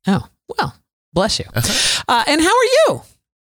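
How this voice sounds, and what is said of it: Voice jumps to a very high pitch. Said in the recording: “my voice went up so high there”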